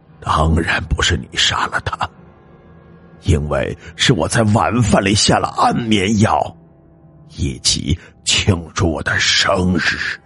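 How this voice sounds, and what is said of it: Sinister, eerie character voice. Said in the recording (Chinese): “王峰用阴森的声音说道”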